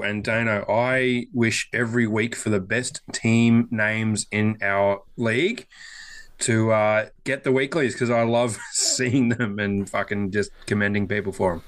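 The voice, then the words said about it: Raspy, slightly hoarse voice. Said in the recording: “A little raspy this week. I'm coming down with something”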